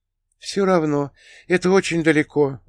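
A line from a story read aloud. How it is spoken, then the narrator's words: Sighing. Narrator (Russian): вздохнула она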